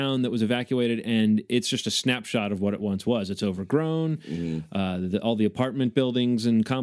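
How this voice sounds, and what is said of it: Usual voice. Nothing is said of it.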